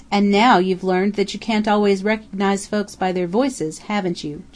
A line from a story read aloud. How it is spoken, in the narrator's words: chuckled Mocker